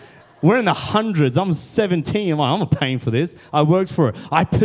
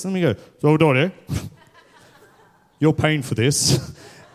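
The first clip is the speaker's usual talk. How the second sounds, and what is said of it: Imitates another person's voice. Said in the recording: “How does he do his voice?”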